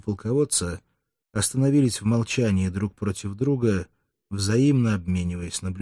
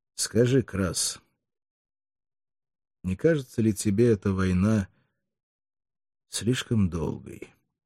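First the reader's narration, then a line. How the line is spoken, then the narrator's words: Soft question. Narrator (Russian): спросил фракиец мягким тоном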